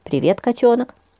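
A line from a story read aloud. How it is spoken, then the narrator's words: Calm reply over phone. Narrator (Russian): спокойно отозвалась трубка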